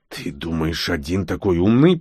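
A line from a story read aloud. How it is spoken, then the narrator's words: Hissing through bitten beard. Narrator (Russian): прошипел он, закусывая свою многострадальную бороду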